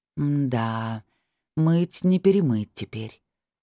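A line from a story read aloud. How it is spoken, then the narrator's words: Sighing. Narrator (Russian): я вздохнула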